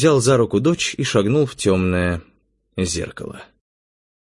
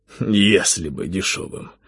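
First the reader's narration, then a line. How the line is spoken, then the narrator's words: Sighing. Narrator (Russian): вздохнул Завулон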